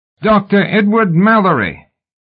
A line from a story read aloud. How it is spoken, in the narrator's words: a voice cried from the darkened floor below